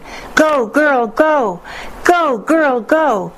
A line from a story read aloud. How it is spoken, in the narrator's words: A boy began yelling